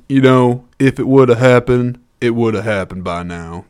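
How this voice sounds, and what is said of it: Weak Ving Rhames impression. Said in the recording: “I don't think that's a good Ving Rhames impression.”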